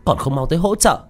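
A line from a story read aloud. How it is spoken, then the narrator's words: Shout. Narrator (Vietnamese): tiếng quát của Đồ Mạn Linh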